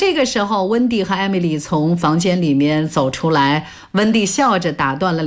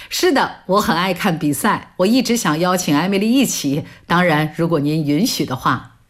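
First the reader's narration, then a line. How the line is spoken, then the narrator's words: Happy, relaxed. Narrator (Chinese): 乔伊开心地回应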